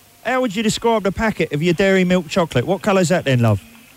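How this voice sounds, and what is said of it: Poor put-on Cockney accent. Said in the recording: “putting on a shonky Cockney voice”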